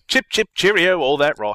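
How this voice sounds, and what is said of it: Exaggerated fake Cockney accent. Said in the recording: “that horrible Dick Van Dyke accent ... how much of it was fake ... what Dick Van Dyke sounded like in Mary Poppins ... the dumbest accent I've ever heard”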